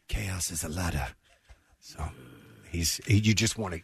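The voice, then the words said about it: Low-voiced Littlefinger impression. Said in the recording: “He gets so low in his speech. ... Great impression.”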